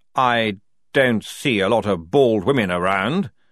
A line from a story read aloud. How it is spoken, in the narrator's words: snapped Frock